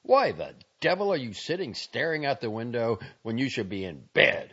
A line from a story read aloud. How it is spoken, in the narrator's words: he yelled